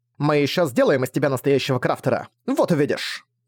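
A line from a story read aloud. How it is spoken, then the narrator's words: Snorted. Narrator (Russian): Фыркнула Нора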